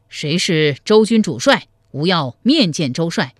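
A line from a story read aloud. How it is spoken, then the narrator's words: Fearful loud shout. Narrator (Chinese): 黄甫辉……心中发怯，登上城楼高声叫道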